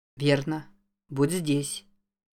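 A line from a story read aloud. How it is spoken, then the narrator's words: Surprisingly calm. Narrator (Russian): Удивительно спокойно сказал Джейк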